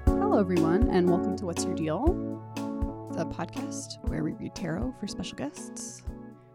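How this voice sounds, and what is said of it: Soothing, slightly sick-sounding voice. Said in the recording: “Your voice is so soothing. ... I'm a little under the weather, so I think maybe that's why my voice is...”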